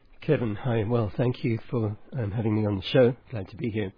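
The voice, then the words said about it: Southern African accent. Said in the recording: “my accent may not be Southern. Well, it is Southern, but it's Southern African rather than Southern United States.”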